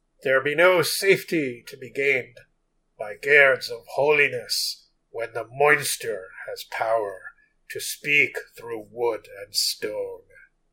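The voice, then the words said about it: Spooky archaic reading voice. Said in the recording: “that was my spooky voice. My spooky, archaic voice.”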